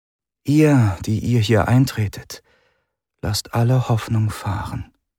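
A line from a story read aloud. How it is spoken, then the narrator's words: Murmuring. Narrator (German): murmelte sie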